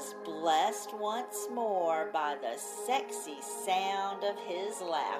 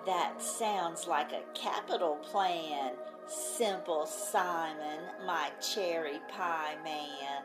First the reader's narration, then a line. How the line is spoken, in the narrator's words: purred